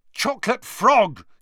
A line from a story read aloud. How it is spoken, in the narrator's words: he yelled angrily